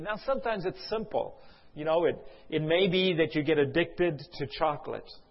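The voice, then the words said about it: South African accent. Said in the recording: “South Africa. That's where my accent is from.”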